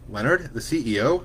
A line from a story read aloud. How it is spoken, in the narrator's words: Hope asked